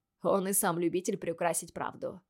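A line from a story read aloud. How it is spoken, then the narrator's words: Skeptical snort. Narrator (Russian): хмыкнул Лейтон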